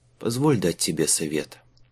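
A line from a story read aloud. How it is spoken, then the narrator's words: Tired smiling speech. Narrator (Russian): устало улыбнулся Майлз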